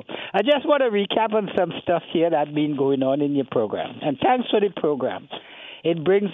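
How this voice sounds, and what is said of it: Trinidadian accent. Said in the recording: “I've gone back into my Trini twang.”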